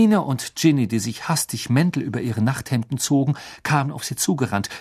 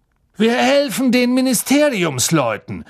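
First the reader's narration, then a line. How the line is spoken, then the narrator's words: Shouted. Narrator (German): rief Mr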